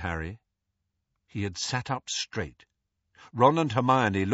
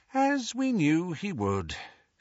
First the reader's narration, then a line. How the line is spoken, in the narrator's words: she sighed